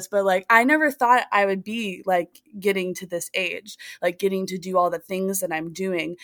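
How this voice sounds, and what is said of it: Emotional voice. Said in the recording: “I'm a little emotional talking about this”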